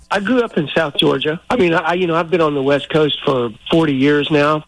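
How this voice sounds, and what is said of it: Slight Southern US accent. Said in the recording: “the accent's holding on, too ... your southern twang a little bit. ... A little.”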